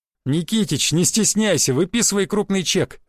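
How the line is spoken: Laughing. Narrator (Russian): засмеялся я

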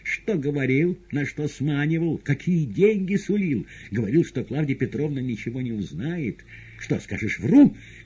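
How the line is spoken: Shouting. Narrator (Russian): кричала Наташа Борову

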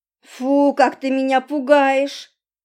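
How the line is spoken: Sleepy grumble, lip-smacking. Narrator (Russian): проворчала я, поворачиваясь на бок и причмокивая губами

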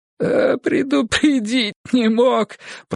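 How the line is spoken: Whimpering. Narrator (Russian): проскулил он

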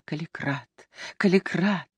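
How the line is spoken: Sobbing, laughing, agitated whisper. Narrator (Russian): Она рыдала, смеялась, словом, вела себя, как любая другая взволнованная женщина, и все шептала

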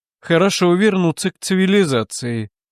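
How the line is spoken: Cheerful. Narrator (Russian): весело сказал он

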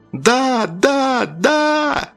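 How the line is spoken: Continued yelling. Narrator (Russian): продолжал вопить Павел

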